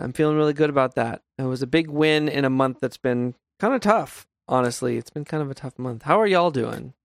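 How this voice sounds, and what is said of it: Worn-out, tired voice. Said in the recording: “my voice is my voice is generally worn out because I'm usually coming from Pokemon, which involves a lot of talking”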